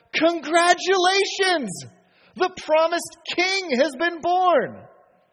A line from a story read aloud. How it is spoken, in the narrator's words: These foreigners, likely speaking a thick accent, shout